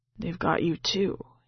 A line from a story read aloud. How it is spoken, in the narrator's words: he whispers